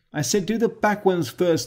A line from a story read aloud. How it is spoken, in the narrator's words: the crocodile called out